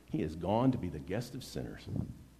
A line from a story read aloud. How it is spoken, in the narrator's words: all the people began to mutter